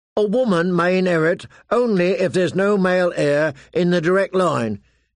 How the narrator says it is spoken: he insisted loudly

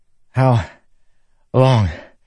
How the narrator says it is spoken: he said, gasping

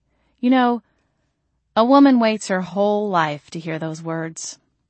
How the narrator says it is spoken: I sighed

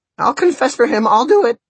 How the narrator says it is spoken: shrieked Fidelito

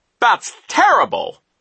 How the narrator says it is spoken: Nero cried

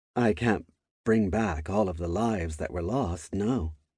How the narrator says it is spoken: she answered in a sad tone

